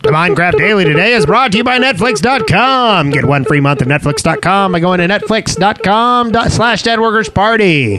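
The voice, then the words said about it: Old-fashioned newsreader voice. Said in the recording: “reading the ad in the news voice. ... From the 1950s.”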